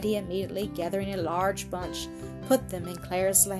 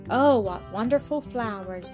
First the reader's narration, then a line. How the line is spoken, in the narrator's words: exclaimed Claire again